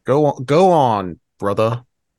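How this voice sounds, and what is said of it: Impression of Big Smoke. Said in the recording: “your impression of Big Smoke from Andreas”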